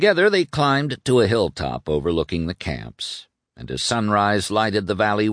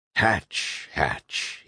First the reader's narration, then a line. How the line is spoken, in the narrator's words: said in a husky voice, barely above a whisper